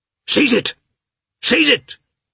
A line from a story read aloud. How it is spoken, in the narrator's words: shouted Lievin